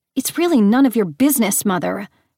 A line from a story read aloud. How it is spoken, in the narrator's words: Persephone snapped